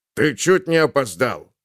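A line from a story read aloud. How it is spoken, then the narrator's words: Muffled grumbling. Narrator (Russian): глухо заворчал дневной охранник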